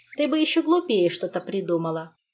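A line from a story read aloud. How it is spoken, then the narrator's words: Woman's commanding scolding tone. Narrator (Russian): Непререкаемым тоном командира вычитывала одна женщина другой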